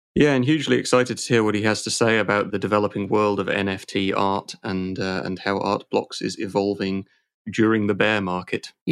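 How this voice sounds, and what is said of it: Smooth British accent. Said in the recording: “your silky smooth British accent”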